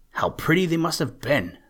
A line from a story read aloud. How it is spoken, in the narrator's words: said Maggie